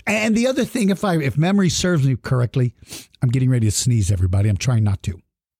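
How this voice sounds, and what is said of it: Rough, congested voice. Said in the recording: “My allergies are driving me crazy. That's why my voice may sound a little rough.”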